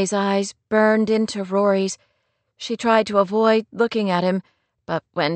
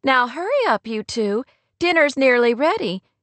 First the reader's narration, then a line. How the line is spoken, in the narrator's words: Kate said with a laugh